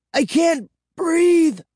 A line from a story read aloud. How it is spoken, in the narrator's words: I gasped